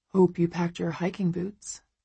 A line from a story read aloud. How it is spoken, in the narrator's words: he says, his voice warm